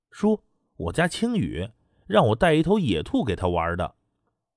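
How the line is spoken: Laughing. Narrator (Chinese): 滕永雷笑道

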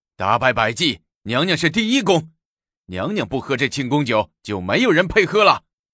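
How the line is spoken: Loud clamoring. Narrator (Chinese): 李义府领头叫嚷着

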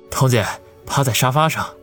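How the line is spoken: Panting, breathless. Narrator (Chinese): 王宇喘着粗气说道

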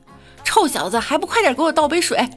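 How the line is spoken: Mother shouting loudly. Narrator (Chinese): 隔壁老妈大喊

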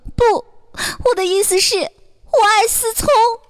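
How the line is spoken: Choked with sobs. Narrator (Chinese): 这女朋友哽咽着说道

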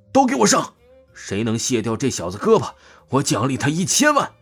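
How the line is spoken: Frenzied roar. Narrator (Chinese): 朴正东懵了，紧接着他发疯大吼

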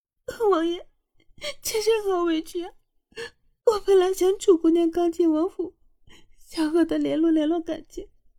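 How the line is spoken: Sobbing. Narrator (Chinese): 于简瑶哭哭啼啼的走向了凌风，说道

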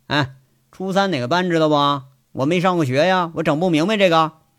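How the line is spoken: Casual, indifferent question. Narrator (Chinese): 杨伟淡淡的吐了个烟圈，回头问着

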